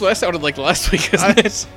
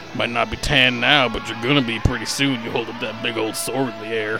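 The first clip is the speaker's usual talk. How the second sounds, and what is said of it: Put-on Southern redneck accent. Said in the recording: “why do I got a southern accent? ... it automatically goes southern ... you turn into an abusive redneck”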